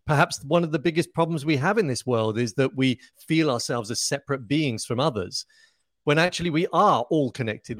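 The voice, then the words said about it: Southern English British accent. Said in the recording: “this amazing accent ... does that make me British? Well, yes, it does ... the accent, um, I suppose, is just typical of somebody of Southern England.”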